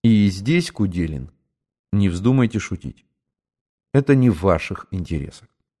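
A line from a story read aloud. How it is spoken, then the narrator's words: Dry and quiet. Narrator (Russian): старший сухо и негромко сказал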